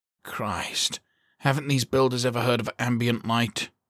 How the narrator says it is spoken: Kowalski muttered

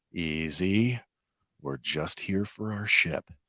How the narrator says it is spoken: He calmly says

